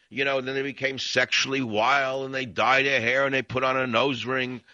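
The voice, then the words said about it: New York accent. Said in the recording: “almost the same accent that I, an original New Yorker, have”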